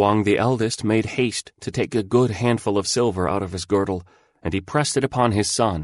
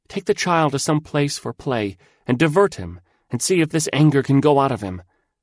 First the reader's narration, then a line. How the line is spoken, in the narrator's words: she cried to him